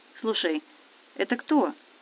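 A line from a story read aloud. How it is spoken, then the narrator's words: Quiet question. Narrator (Russian): негромко спросил Настя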